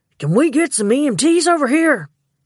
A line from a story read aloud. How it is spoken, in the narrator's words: Gibson yelled over the ruckus of sirens and new voices